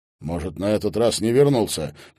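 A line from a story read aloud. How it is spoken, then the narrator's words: Speculating. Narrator (Russian): предположил Маркельм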